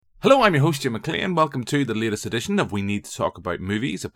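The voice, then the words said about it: Northern Irish accent. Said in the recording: “with a Northern Irish accent.”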